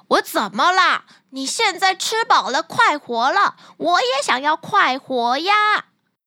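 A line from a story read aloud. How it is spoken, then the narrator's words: Loud singing and shouting. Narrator (Chinese): 汤姆再次敞开喉咙，又是唱歌又是叫喊的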